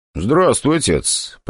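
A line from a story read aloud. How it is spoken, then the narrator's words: Polite but cold. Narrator (Russian): проговорил я довольно вежливо, но холодно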